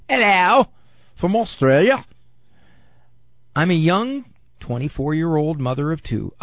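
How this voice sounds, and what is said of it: Put-on Australian accent. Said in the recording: “I suppose I could try to read this with a bit of an accent.”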